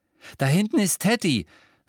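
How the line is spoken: Breathless. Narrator (German): sagte er atemlos

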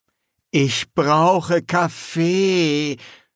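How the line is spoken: Groaning. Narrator (German): stöhnte

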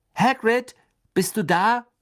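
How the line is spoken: Calling out. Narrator (German): rief Harry

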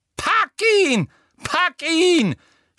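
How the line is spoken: Scream. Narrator (German): schrie Umbridge

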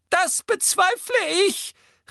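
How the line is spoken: Small woman calling. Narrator (German): rief die kleine Professor Marchbanks

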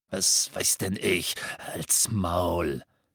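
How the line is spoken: Coarse growling man. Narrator (German): knurrte jemand, und Harry erkannte die ordinäre Stimme von Amicus, dem Bruder von Alecto Carrow

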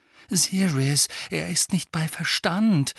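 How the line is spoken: Pleading. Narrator (German): flehte Hermine

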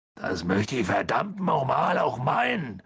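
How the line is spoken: Growled. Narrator (German): knurrte Hagrid

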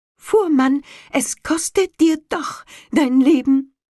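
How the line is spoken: Called out. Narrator (German): ruft

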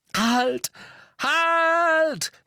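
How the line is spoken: Called out. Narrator (German): rief Harry

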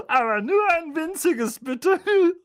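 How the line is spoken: Giggling. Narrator (German): kicherte sie

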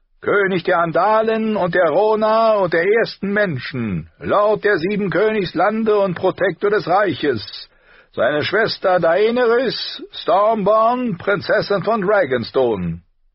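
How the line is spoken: Called in high, pretty voice. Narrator (German): rief mit hoher, hübscher Stimme

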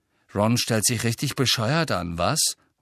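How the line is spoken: Murmuring. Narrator (German): murmelte George

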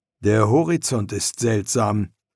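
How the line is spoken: Plain. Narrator (German): antwortete Marco

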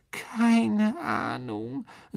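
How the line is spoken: Muffled voice. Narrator (German): sagte Myrte mit gedämpfter Stimme

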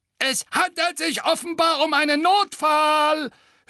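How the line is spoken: Gargoyle sneering. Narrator (German): höhnte der zweite Wasserspeier

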